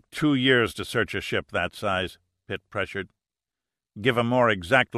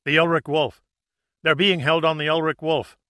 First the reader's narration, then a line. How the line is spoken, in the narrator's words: The guard's face did not transform from defiance to pure fright, but still, staring from eyes filled with loathing, he gasped